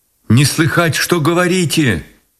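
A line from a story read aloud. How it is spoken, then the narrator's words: Shouting. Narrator (Russian): прокричала она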